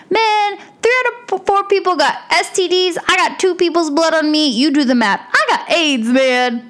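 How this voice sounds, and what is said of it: Imitates a movie character's voice. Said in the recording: “That's my impersonation of John ... that was terrible”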